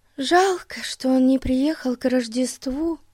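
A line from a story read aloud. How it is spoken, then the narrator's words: Sighed. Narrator (Russian): вздохнула Дейзи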